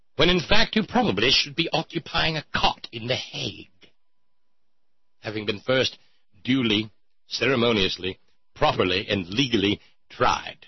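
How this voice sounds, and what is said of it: Put-on accent. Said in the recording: “I got to get out of this damned accent”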